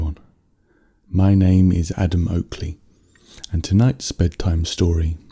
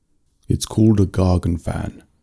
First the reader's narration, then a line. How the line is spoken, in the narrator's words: the Earthman said